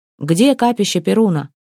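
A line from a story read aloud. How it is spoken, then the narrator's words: Plain question. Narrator (Russian): спросил Торир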